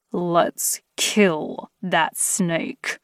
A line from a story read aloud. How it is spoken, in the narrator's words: growled through gritted teeth